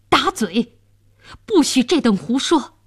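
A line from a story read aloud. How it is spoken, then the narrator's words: Furious. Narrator (Chinese): 监斩官大怒道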